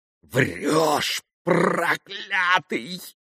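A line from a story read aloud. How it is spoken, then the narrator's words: Hissing. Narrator (Russian): прошипел Григорий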